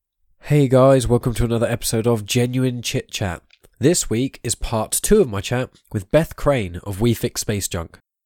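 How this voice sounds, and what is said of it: Congested, blocked-up nasal voice. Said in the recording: “as you may be able to hear in my voice, I've got a bit of a blocked up nose because I've been suffering terribly with hay fever”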